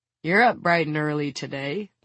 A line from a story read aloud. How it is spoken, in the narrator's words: the caretaker chuckles